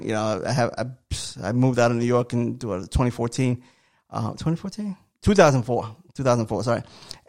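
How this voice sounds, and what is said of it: New York accent. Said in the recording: “a lot of you say I have an accent... you're from New York... you still got the accent”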